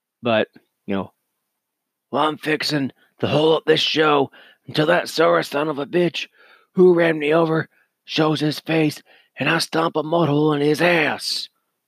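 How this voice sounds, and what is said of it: Steve Austin impression, congested voice. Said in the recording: “I can't do a Steve Austin impersonation. I actually can't do many impersonations because I'm still a little congested.”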